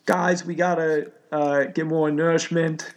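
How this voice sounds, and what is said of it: Rough attempt at Boston accent. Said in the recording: “I can't do a Boston accent ... It's close enough.”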